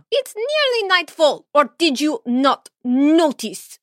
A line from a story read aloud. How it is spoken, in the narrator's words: She snarled